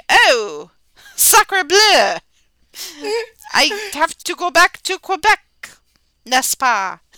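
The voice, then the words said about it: Deliberately bad fake French accent. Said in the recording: “I spoke with a really horrible French accent”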